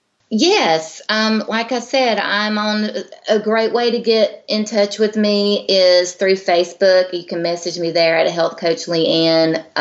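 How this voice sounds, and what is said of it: Southern accent. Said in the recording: “your beautiful southern accent”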